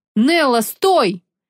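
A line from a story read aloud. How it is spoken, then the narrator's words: Desperate yell. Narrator (Russian): отчаянно заорал Кристиан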